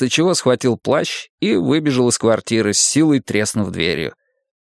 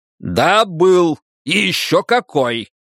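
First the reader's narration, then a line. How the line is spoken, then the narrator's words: Wolf shouting in face. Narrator (Russian): выкрикнул волк ей в лицо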